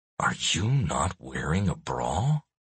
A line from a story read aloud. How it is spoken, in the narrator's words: I whisper through clenched teeth